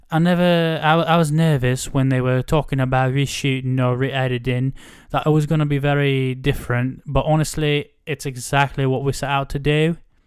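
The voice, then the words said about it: Imitated Essex English accent. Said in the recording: “that was kind of an Essex English accent... I didn't do a good. I didn't do you justice there.”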